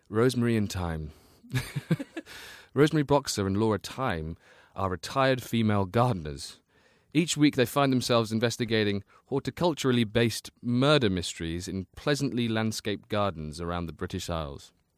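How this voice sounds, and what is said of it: Put-on English accent. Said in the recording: “As it's for England, I'll do it in an English voice.”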